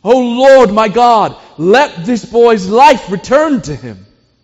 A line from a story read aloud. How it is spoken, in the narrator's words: cried out to the Lord